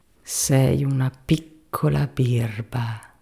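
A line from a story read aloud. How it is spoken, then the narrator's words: Muttering to oneself. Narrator (Italian): mormorava fra sé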